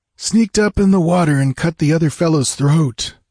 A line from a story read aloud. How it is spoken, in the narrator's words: groaned Balthus